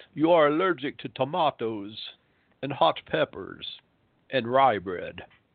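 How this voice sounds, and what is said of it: Put-on Central European accent. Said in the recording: “He was from Central Europe, had a wonderful Bela Lugosi-like accent.”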